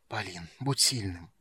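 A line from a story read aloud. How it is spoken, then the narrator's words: Whispered. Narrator (Russian): прошептал Рейслин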